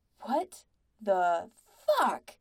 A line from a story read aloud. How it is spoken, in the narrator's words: Pete snarled, shock and cold rage slamming through him